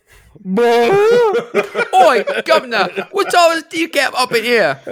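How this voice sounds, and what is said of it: Put-on Cockney accent. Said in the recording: “accent started Cockney and went straight to Texas”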